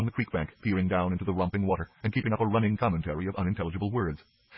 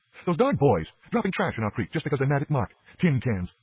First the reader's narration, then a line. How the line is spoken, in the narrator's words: she cried indignantly